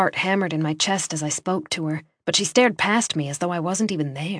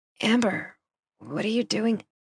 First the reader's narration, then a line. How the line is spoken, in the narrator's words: Her voice was groggy